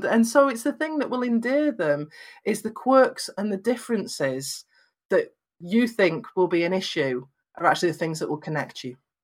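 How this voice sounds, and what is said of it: Lancashire English accent, flat vowels. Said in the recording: “I hear my accent, and I'm from Lancashire in Northwest England, so I have very flat vowels”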